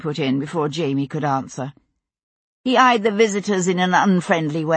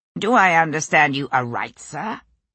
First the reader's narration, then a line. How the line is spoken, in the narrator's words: Richardson put in, his tone edgy